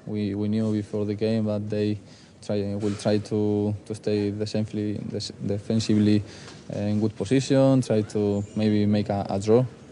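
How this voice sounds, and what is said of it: Spanish-accented English. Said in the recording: “Spanish accent”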